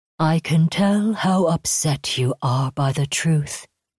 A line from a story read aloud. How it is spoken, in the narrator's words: it said in a soothing, sweet tone